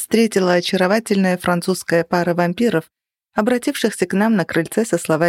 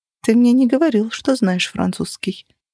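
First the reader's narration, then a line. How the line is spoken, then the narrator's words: Whisper. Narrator (Russian): прошептала я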